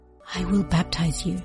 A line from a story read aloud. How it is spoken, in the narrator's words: he whispered